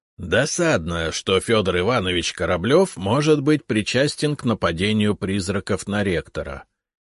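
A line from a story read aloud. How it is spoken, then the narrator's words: Plain, old man. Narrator (Russian): сказал дед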